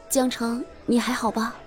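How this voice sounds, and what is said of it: Quiet, hushed question. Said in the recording (Chinese): “小声地问”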